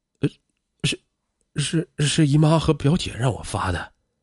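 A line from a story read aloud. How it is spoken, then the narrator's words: Trembling voice. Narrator (Chinese): 黄坚颤声的说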